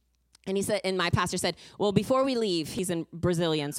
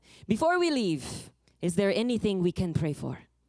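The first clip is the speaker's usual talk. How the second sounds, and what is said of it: Put-on Brazilian accent. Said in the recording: “I'm going to use my Brazilian accent.”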